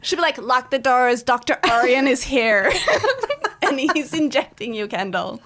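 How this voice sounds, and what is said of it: Exaggerated put-on Armenian accent. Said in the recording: “That was the most insane accent I've ever heard. ... doing an Armenian accent.”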